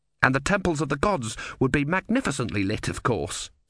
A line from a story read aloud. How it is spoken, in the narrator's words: said Urn quickly